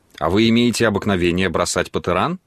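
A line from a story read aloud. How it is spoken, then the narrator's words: Plain. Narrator (Russian): спросила Паула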